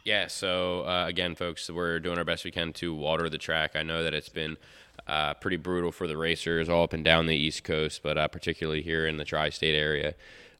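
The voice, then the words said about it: Congested, slightly nasal voice. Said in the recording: “You can kind of hear it in my voice. Maybe I'm a little nasally. ... I've had this like chest congestion and a little bit of a head cold”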